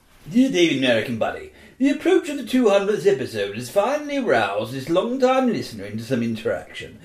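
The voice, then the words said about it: Loud posh accent. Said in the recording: “I'm going to do the accent of the posh prick outside my house, kind of talking at the top of his voice.”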